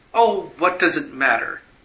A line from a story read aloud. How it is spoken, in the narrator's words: she cried